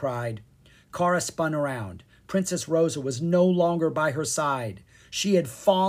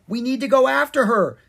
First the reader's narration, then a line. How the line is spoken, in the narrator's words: Zed cried